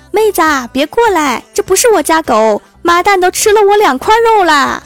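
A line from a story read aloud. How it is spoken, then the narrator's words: Shouting. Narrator (Chinese): 老板冲我喊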